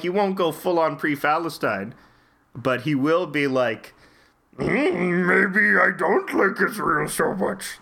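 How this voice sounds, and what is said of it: Imitates another person's voice. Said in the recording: “This is my flawless Seth Rogen impression.”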